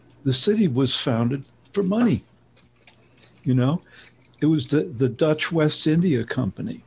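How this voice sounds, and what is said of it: New York accent. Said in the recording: “As you may be able to tell from my accent, I'm from New York.”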